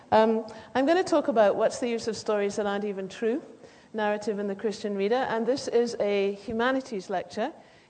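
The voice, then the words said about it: British accent. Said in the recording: “as you can probably hear, I come from Britain ... I'm saying it in this accent.”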